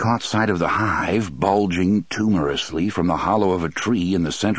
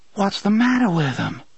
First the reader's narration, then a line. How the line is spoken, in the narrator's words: Susanna asked, in a soft, horrified voice